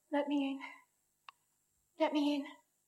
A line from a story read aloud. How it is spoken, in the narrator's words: a most melancholy voice sobbed